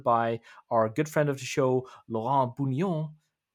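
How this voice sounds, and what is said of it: French accent on a name. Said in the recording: “It's a French accent. ... I think it was quite okay.”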